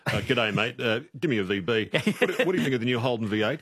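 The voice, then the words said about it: Caricatured blokey straight-man voice. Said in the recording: “impersonate a caricature of a straight man”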